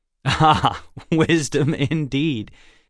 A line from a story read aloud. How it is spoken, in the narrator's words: Alex laughed